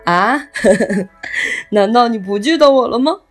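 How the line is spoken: Laughing. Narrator (Chinese): 叔叔笑着说

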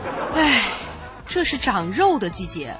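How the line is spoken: Long sigh. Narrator (Chinese): 他长叹一口气说

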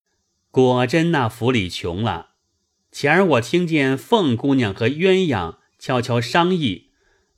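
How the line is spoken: Laughing. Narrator (Chinese): 贾蓉又笑向贾珍道

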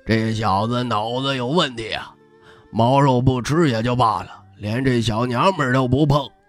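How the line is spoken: Old man muttering. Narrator (Chinese): 老头 嘀咕着

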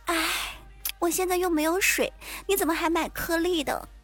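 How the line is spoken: Sighing woman. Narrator (Chinese): 我那坑爹的女同事在旁边叹气说

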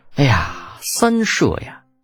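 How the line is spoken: Feigned sorrowful sigh. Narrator (Chinese): 李浩故作愁容 叹道

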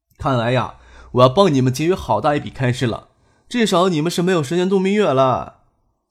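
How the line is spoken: Joking. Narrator (Chinese): 张克开玩笑说

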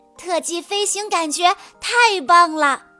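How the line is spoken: Excited shout. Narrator (Chinese): 他兴奋地大喊道

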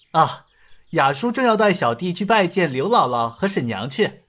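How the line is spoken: Laughing. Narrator (Chinese): 尹建平笑道

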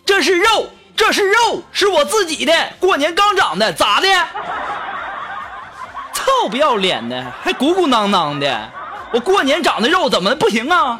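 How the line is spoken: Angry roar. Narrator (Chinese): 我就愤怒的大声吼道

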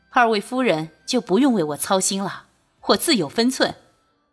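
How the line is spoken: Hearty laughter. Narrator (Chinese): 君玉大笑

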